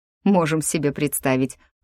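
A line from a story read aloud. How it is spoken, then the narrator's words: Wry snort. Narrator (Russian): хмыкнул Олег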